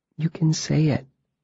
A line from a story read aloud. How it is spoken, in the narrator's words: Ari said softly